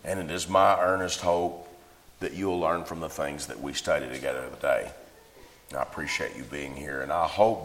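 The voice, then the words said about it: Hoarse voice. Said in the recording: “I know my voice sounds hoarse to you ... It might sound like it hurts to talk”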